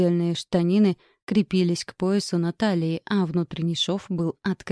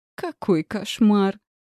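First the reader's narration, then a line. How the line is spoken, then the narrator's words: Hysterical laugh. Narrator (Russian): Я истерично рассмеялась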